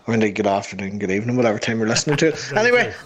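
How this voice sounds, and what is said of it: Northern Irish accent. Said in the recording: “the lovely Northern Irish voice of ... my weird voice”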